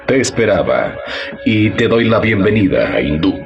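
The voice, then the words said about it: Deep, mysterious, solemn character voice. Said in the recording (Spanish): “una voz grave, misteriosa y solemne ... Su voz, su acento, es él, el egipcio”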